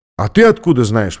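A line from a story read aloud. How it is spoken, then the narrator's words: Exclaiming. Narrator (Russian): воскликнула Дорис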